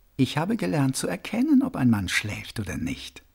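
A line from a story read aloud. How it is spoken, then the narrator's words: Plain. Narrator (German): sagte die Frau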